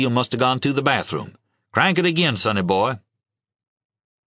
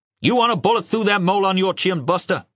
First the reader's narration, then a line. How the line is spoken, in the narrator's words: He yelled